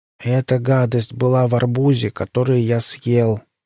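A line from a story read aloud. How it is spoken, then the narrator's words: Monotone. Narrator (Russian): монотонным голосом произнес подопытный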